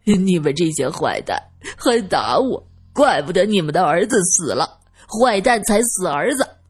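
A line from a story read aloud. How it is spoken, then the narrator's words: Crying. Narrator (Chinese): 二先生哭着说道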